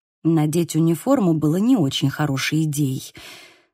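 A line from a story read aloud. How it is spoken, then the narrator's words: Muttering. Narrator (Russian): пробормотала я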